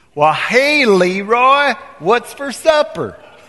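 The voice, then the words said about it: Put-on American Southern accent. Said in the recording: “she comes upstairs with this southern accent.”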